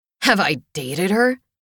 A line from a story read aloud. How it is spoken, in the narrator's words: Cullen laughed under his breath